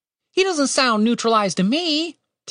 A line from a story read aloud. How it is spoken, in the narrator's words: Tim said over the screeching